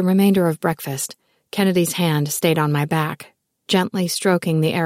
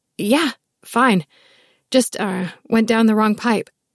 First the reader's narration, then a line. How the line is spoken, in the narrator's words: I struggled to clear my throat and rasped